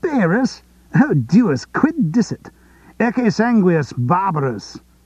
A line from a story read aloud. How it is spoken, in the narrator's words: another exclaimed